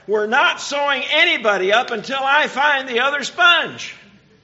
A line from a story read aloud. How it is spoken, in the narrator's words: the nurse didn't feel like she had much choice, so she yelled back